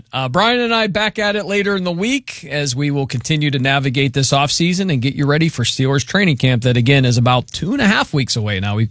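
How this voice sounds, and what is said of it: Strained, hoarse voice. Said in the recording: “I'm losing my voice and I'm choking here at the end”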